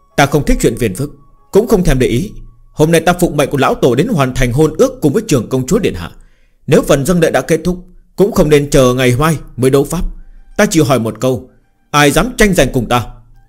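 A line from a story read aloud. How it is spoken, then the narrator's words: Fearsome commanding shout. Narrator (Vietnamese): Hắn hét một tiếng uy nghiêm đáng sợ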